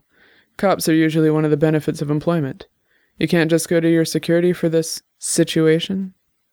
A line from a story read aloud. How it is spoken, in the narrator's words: She sighed